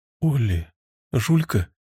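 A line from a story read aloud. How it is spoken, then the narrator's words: Calling tenderly. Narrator (Russian): позвала она ласково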